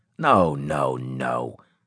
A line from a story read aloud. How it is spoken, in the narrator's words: Claver said irritably